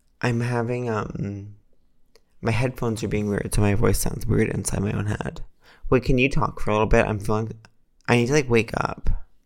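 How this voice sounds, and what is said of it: Soft, sleepy, ASMR-like voice. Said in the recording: “your sleepy voice is so sweet ... You're really like ASMR-y right now.”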